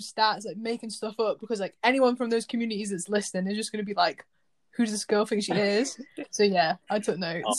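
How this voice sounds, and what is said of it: Northern English Isle of Man accent. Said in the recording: “your accent ... the Isle of Man was from up north was like a northern ... some people say that the Isle of Man accent is like quite Scouse”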